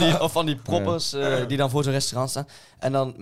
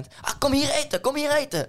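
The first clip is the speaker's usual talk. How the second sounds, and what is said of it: Imitated tout with bad accent. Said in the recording (Dutch): “met zo'n zeer slecht accent.”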